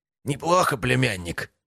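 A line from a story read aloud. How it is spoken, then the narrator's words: Groan. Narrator (Russian): простонал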